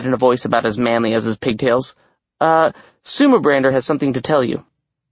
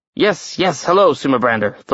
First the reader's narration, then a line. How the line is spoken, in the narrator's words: Thor grumbled